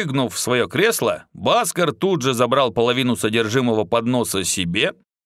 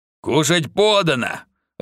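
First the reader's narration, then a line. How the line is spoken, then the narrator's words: Growling. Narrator (Russian): рыкнул Инхарец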